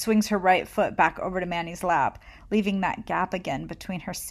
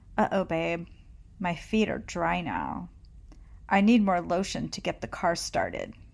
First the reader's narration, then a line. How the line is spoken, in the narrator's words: says, first in a sexy voice, but with a commanding tone at the end